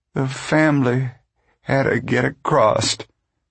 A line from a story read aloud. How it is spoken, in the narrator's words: Ma said miserably